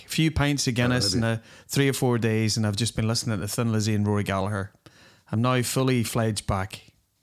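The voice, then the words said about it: Strong Irish Dublin accent. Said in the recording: “I notice your accent's come back quite strongly ... back in the homeland. Dublin.”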